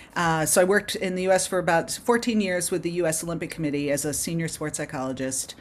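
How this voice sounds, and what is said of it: Foreign, non-local accent. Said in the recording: “you can tell from my accent, I'm not from around here”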